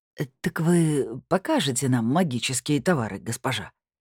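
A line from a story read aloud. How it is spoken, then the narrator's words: Quiet, curious request. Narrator (Russian): тихонько попросил долговязый, с осторожным любопытством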